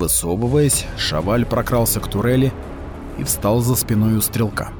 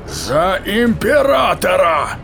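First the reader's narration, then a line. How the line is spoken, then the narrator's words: Roar. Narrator (Russian): взревел Казан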